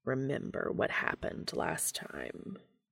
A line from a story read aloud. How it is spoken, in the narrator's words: Cass growled